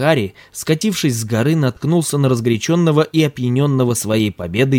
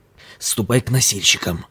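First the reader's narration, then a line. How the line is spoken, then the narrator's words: Whispering in ear. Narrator (Russian): зашептал ему Бабу на ухо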